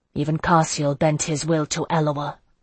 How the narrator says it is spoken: I murmured

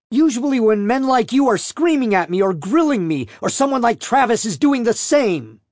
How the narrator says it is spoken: she retorted, her body tensing angrily

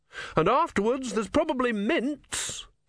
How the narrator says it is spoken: he shouted through cupped hands

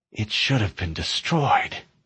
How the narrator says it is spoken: she whispered

